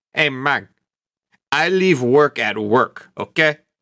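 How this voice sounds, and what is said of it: Razor Ramon impression. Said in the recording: “Great Razor Ramon impression”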